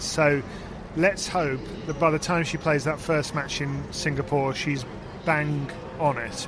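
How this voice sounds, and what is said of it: Brummie accent. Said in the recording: “I love hearing bang on it said in a Brummie accent ... It sounds so much better than when I say it ... Mini extra syllable on the end there.”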